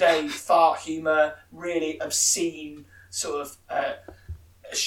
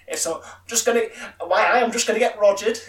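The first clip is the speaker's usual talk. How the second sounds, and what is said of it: Imitates another person's voice. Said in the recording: “his best Ronnie Corbett impression”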